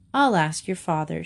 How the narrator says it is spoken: she said

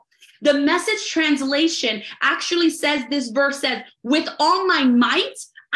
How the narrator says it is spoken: I shout up to God

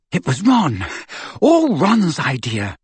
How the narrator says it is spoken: said Hermione breathlessly

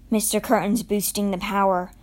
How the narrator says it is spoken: Winnie said gravely

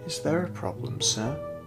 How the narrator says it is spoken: spoke in her calm voice

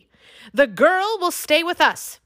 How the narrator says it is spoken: the High King shouted

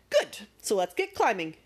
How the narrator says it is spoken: declared Magic happily

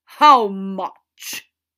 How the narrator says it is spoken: he spat

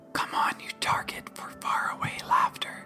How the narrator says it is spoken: whispered

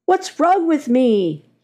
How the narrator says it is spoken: he shouts

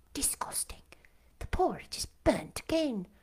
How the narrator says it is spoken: the tall girls of the first class rose the whispered words

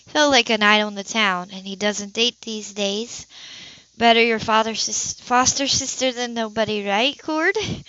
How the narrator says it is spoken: She added with a nervous laugh

